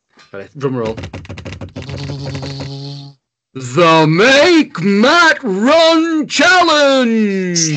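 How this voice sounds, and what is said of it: Wrestling ring announcer voice. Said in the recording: “Do the voice. ... Oh, that was like, what's he called? The Royal Rumble guy.”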